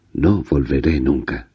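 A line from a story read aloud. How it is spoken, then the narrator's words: Growling. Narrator (Spanish): gruñendo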